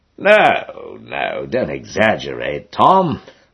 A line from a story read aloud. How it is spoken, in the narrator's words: murmurs Jack reprovingly